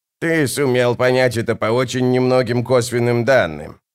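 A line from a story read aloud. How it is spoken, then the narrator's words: Grumbling. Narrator (Russian): проворчала она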